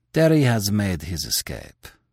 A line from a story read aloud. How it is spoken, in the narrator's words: he answered calmly